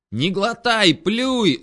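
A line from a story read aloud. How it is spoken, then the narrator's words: Yelled right into ear. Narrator (Russian): заорал я Максу прямо в ухо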